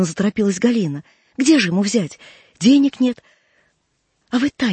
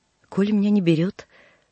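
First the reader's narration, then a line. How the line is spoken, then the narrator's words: Gloomy. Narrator (Russian): мрачно сказал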